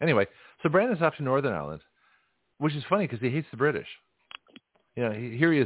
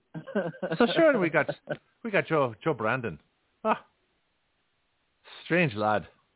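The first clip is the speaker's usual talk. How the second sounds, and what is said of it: Put-on Irish accent. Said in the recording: “in an Irish accent.”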